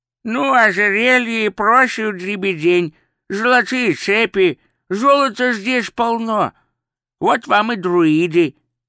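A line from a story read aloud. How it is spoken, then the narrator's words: Old man's toothless mumble. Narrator (Russian): прошамкал старик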